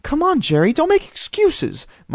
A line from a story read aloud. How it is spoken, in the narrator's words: Mom snapped impatiently